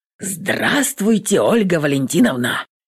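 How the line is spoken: Hoarse, flushed, sweaty man. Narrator (Russian): Хрипит пунцовый потный Паша

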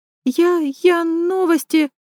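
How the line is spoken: Stammering. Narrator (Russian): запинается

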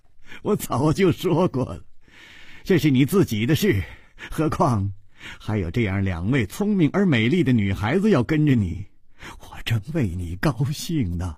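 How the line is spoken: Leisurely, smiling. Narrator (Chinese): 楚留香悠悠地笑着说

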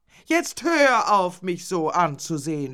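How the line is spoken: Suddenly shouted at him. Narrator (German): schrie sie ihn plötzlich an

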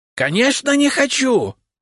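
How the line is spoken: Shout. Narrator (Russian): выкрикнул Рябушинский

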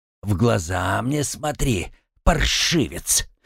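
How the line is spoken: Furious hiss. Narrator (Russian): прошипел он, пылая гневом и негодованием

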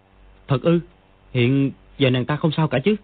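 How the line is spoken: Shocked trembling question. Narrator (Vietnamese): Dương Quá cả kinh, run run hỏi

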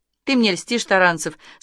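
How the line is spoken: Cheerful. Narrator (Russian): сказала она весело

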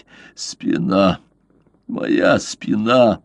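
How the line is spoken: Groan. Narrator (Russian): простонал он

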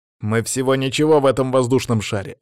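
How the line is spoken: Snapping retort. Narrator (Russian): огрызнулся Саня

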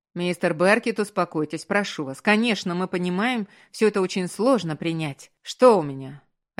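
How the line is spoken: Sharp, interrupting question. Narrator (Russian): резко спросил Маркус, перебивая врача

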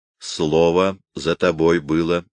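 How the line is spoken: Plain. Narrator (Russian): сказал он ему

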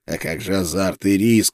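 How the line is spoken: Hoarse rasp. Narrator (Russian): прохрипел я

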